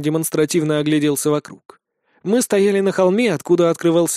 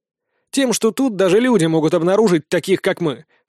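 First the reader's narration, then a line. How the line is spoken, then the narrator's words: Amused snort. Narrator (Russian): хмыкнул принц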